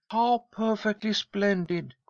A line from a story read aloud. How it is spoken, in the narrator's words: cried Lloyd, her eyes shining with pleasure